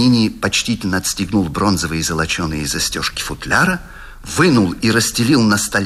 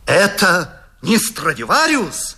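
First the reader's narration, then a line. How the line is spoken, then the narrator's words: Admiring exclamation. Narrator (Russian): воскликнул восхищенный Паганини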